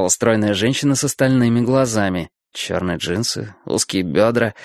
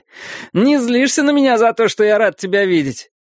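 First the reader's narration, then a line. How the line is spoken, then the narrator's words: Laughing. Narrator (Russian): Я рассмеялся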